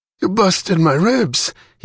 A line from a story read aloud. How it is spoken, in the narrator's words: gasped